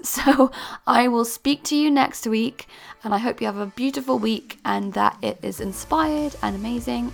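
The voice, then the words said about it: Strained, fading voice. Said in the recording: “I seem to be losing my voice.”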